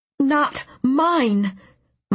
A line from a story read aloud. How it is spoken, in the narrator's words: my mind screamed